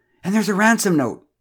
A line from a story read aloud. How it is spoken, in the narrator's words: she wailed